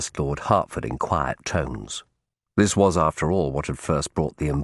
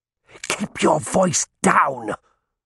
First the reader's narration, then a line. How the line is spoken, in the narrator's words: Hartford snapped